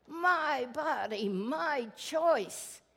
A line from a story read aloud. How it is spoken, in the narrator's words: she shouted